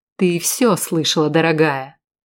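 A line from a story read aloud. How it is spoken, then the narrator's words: Sarcastic. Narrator (Russian): язвительно произнес он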